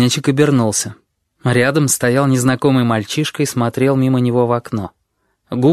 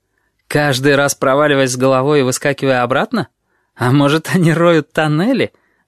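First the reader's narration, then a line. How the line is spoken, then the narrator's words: Laughing. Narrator (Russian): рассмеялся неизвестный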